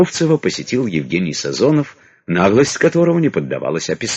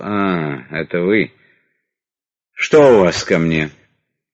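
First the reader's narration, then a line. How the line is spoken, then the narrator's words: Weary sigh. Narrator (Russian): Устало вздохнув, министр сказал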